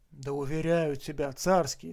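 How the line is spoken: Plain. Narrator (Russian): сказал я

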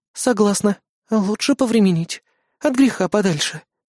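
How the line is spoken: Sighing. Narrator (Russian): вздохнула Кайли

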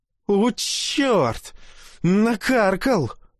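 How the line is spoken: Loud howl. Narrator (Russian): в голос взвыл тот

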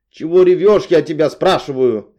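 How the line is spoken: Startling loud bark. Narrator (Russian): рявкнула Наташка так, что я подскочила на диване

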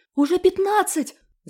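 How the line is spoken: Girl shouting. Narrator (Russian): закричала Машка

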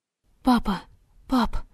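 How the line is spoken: Frightened call. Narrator (Russian): испуганно позвала она

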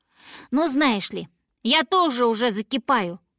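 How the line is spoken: Snort. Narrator (Russian): фыркнула Винни

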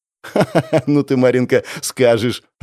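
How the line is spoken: Laughing. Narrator (Russian): рассмеялась Аня

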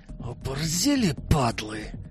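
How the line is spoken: Hissed with hatred. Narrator (Russian): Прошипел Славик с ненавистью

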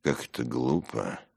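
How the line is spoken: Grumbling. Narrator (Russian): проворчал Симонов

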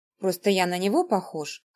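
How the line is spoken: Snorting chuckle. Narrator (Russian): хмыкнул Петя

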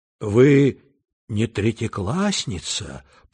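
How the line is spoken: Timid whisper. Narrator (Russian): прошептал Петя робко

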